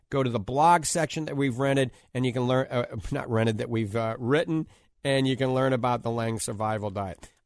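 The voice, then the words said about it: New Orleans accent. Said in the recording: “that's my New Orleans accent coming out”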